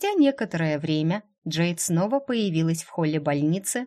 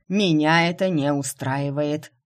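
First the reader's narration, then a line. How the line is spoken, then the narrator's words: Menacing declaration. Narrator (Russian): грозно заявил главный лекарь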